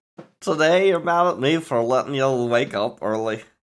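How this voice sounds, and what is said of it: Poorly done put-on Scottish-sounding accent. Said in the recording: “that was Scottish ... I'm bad at accents”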